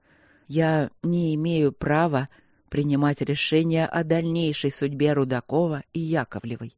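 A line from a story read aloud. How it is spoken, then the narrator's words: Slow speech. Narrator (Russian): медленно проговорил Игорь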